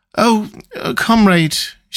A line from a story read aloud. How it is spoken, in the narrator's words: she began in a dreary, whining sort of voice